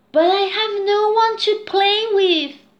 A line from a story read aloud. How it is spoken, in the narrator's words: cried Louise